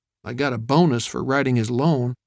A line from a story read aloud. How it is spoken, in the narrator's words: Streeter muttered